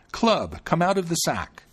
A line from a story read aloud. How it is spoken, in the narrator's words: he cried out